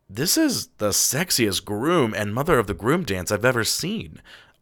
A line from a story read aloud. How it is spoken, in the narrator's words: I muttered to my co-pilot, Juan